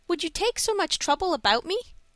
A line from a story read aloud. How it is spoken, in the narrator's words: asked Dick earnestly